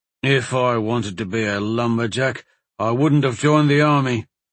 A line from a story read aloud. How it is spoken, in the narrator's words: the other man grumbled